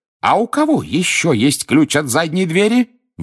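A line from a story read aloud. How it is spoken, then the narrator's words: Shrieking cook. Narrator (Russian): взвизгнула кухарка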